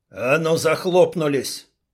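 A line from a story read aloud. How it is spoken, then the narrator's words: Butcher barking. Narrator (Russian): рявкнул мясник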